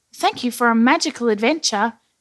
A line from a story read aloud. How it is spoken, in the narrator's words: he said happily